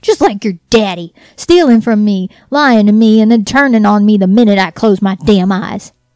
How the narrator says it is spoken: Mama yelling

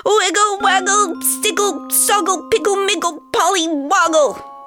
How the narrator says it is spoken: Ben yelled

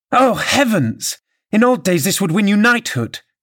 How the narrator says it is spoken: exclaimed Mrs

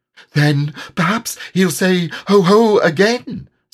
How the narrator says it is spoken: suggested Piglet anxiously

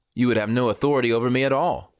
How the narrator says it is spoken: Jesus answered him

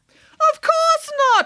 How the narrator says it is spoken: exclaimed Nanny Piggins

